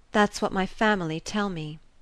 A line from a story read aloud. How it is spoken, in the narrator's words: she murmured at length